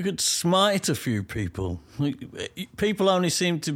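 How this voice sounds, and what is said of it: Usual voice. Nothing is said of it.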